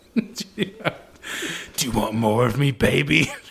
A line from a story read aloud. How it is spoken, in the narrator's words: Draco growled